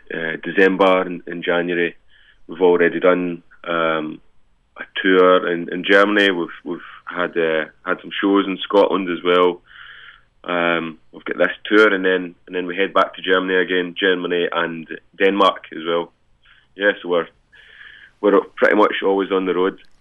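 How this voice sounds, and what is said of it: Scottish accent. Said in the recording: “that great Scottish accent”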